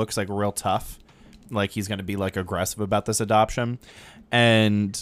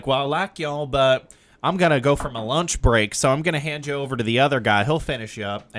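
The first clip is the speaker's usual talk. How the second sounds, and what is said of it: Strong Southern accent. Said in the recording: “he just had such a strong Southern accent”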